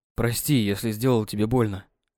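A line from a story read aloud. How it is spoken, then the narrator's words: Murmured in ear, breathless. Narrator (Russian): пробормотал он Юле на ухо, пытаясь справиться с дыханием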